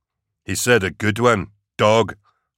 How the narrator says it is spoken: Larkin snapped

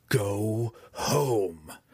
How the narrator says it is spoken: Drizzt cried at her

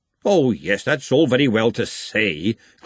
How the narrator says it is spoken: Glenda snapped

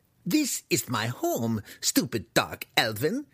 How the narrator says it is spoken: the human spat

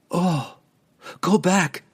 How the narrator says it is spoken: Catterby cried, horrified by the sight

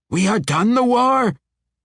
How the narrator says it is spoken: It shrieked

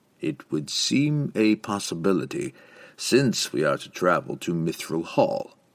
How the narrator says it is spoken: Dantrag added coolly

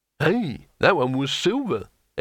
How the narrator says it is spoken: exclaimed Hurun

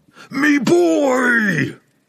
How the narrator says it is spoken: The dwarf yelled with all his rage

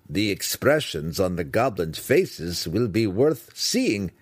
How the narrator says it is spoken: Brickers laughed at Drizzt

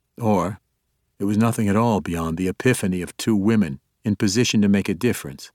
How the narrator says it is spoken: Treri said dryly

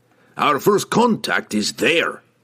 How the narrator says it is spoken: growled Brunner

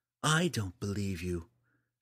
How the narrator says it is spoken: Eleni retorted quietly

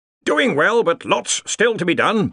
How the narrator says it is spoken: barked Ridcully

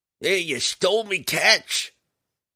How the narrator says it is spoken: the captain of the second ship roared

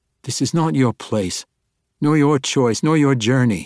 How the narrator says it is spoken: blurted

